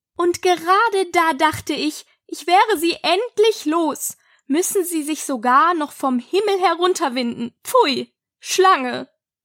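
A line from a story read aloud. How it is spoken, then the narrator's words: Pigeon, raised voice. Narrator (German): fuhr die Taube mit erhobener Stimme fort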